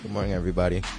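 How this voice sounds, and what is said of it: Unusually deep voice. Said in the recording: “What is that, deep voice?”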